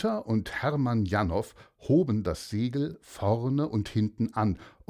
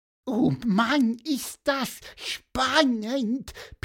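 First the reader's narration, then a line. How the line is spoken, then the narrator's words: Squeak. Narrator (German): piepste Pieper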